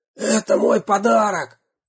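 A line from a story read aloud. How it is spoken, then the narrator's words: Hoarse rasp. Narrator (Russian): прохрипел он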